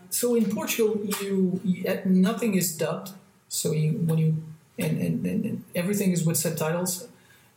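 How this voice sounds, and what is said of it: Light European accent in English. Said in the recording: “It's not American. ... It's something weird. ... it's European, but it's not heavily accented at all.”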